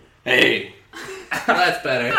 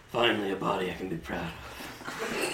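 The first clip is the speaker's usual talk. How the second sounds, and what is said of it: Whispered, very quiet voice. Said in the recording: “I didn't mean to put him on whisper mode. Let me turn up the volume.”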